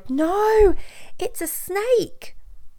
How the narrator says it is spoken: the woman cried

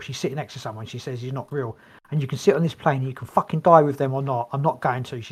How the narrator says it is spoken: she said frantically and scared

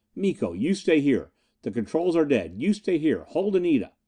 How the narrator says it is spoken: gasped

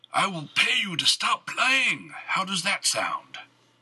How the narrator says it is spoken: Thaddeus yelled

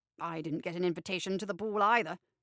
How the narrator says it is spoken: snaps

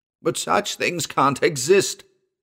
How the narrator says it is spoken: Mason cried out in sudden protest

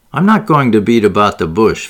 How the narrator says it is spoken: Van Alden said curtly

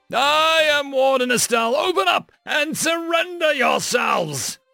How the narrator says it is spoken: Estelle roared at the gate

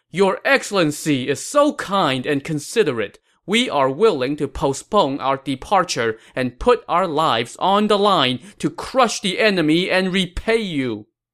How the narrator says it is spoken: they all shouted

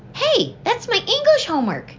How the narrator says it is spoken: Stephen cried

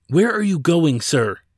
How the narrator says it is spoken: Jacco inquired almost frantically

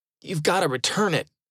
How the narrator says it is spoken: he pleaded

